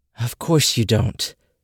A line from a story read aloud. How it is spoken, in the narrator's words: sighed her mother again